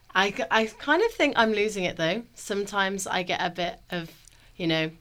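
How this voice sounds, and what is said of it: English accent from Birmingham. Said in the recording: “You've got an accent. ... I like the accent. ... all the way from Birmingham, England”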